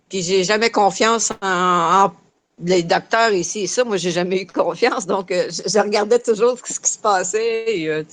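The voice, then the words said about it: Québécois French accent. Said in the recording (French): “ton super accent ... on est parti au Québec ... On n'a pas tout à fait le même français”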